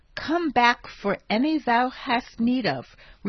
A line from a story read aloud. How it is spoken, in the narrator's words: replied Haji Murato